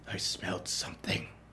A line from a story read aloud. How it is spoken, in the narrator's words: just snarls and says